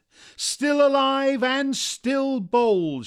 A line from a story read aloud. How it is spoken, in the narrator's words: shouted Earth